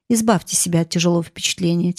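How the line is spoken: Quiet. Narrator (Russian): тихо сказал Кресс

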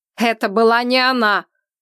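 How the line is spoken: Frightening scream. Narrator (Russian): Он так закричал, что мне стало страшно

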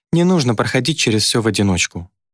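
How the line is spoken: Affectionate. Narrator (Russian): сказала ласково

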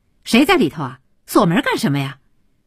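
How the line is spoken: Loud resentful. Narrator (Chinese): 传递着敲门人的高声的怨恨

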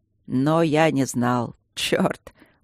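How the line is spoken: Laughing. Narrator (Russian): он засмеялся

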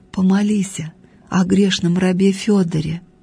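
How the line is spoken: Unseen voice whispering. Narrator (Russian): невидимый голос прошептал в ухо старушке

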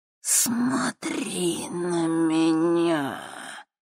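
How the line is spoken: Soft hiss, old woman. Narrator (Russian): тихо прошипела старуха

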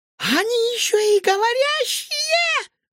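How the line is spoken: Shrieked. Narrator (Russian): взвизгнула официантка

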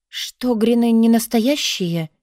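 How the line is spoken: Uncertain. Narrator (Russian): неуверенно сказала я

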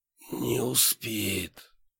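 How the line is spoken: Hoarse, in burning pain. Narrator (Russian): прохрипел я, чувствуя, как полыхаю огнем

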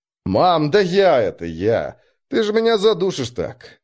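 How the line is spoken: Laughing. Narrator (Russian): Смеясь, сказал Марк

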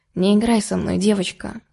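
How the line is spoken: Quiet. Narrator (Russian): тихо сказал

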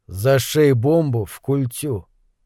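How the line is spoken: Calm. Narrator (Russian): Талант спокойно сказал

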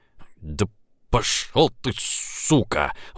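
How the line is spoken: Hoarse rasp. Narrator (Russian): Он еще мог хрипеть

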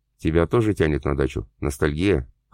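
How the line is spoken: Amused snort. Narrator (Russian): хмыкнул друг

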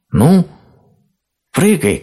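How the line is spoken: Shouted. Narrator (Russian): крикнула белка

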